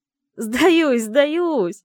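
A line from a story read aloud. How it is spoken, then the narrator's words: Infectious laughter. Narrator (Russian): Волчонок заразительно хохотал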